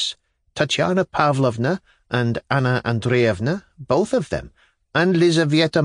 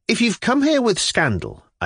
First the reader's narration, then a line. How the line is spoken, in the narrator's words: I cried suddenly, unable to restrain myself